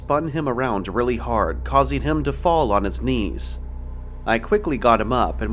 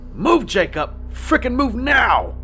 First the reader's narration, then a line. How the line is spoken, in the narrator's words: I screamed at the top of my lungs